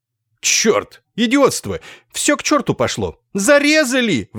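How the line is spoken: Frantic yelling. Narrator (Russian): вопил он неистовым голосом

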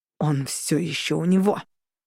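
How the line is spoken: Growl. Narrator (Russian): прорычал Орланд

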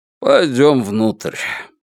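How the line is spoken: Snort, then said. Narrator (Russian): хмыкнул и сказал

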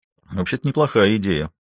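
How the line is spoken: Muttered. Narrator (Russian): пробормотал Валандер

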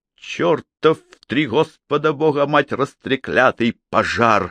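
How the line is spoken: Angry cursing. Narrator (Russian): выругался Джейми

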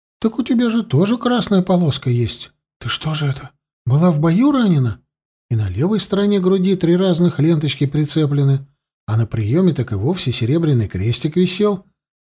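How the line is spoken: Exclaiming elderly duchess. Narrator (Russian): воскликнула старшая герцогиня

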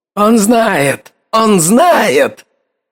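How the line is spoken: Shouted. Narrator (Russian): выкрикнул он

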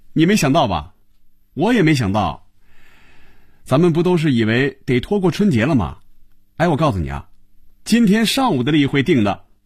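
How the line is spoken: Laughing. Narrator (Chinese): 韩香笑了起来

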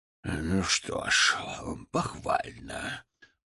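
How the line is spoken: Precise, through clenched teeth. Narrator (Russian): произнес, и это слово было выцежено сквозь зубы с аптекарской точностью

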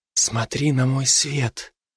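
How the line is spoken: Whisper. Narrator (Russian): прошептала она

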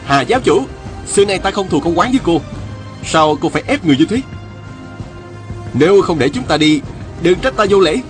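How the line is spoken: Shouting. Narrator (Vietnamese): Viên Thừa Chí la lên

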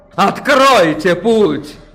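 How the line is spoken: Miracle worker shouting. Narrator (Russian): прокричал чудотворец

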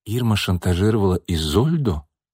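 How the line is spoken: Thoughtful. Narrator (Russian): задумчиво проговорила Настя

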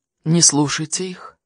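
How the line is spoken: Whisper. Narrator (Russian): шепнул нам Хорхе

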